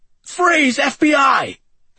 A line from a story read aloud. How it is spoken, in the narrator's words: Andy shouted